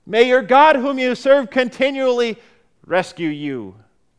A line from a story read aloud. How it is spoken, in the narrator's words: the king cried out with an hopeless, hopeless heart